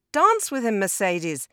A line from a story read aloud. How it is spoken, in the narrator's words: called out